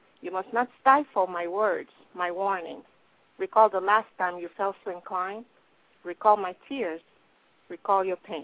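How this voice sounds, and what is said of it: Speaks English with an accent. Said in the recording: “Completely understandable, even with your accent.”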